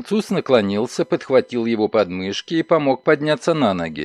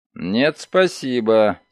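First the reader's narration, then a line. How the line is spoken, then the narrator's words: Dry. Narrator (Russian): сухо ответил он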